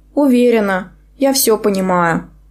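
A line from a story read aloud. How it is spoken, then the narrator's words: Doomed, resigned tone. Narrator (Russian): сказала я обреченным тоном, будто только что созналась в жестоком убийстве единорога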